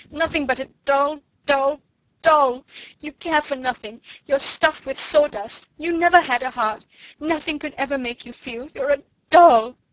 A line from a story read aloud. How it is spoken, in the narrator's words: she cried